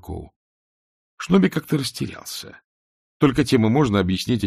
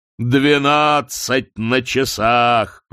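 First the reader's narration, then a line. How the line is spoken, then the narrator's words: Roaring. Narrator (Russian): проревел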